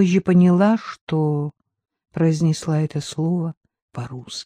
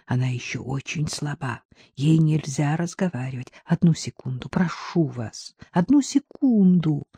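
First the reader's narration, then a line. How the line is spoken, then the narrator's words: Pleading whisper. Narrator (Russian): Умоляюще прошептал Джек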